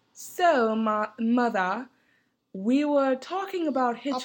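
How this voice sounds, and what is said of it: Put-on English accent drifting Indian. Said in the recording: “Can we do the rest in an English accent? ... I'm getting Indian”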